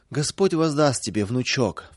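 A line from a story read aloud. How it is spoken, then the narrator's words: Sobbing old woman. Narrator (Russian): всхлипывала бабушка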